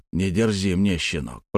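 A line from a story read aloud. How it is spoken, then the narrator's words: Grumble. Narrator (Russian): проворчал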